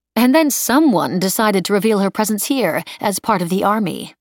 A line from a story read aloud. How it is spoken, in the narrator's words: Nanette said dryly